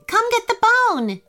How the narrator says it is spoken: she shouted

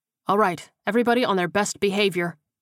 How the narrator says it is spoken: Kersey said firmly

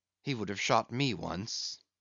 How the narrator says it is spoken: he murmured

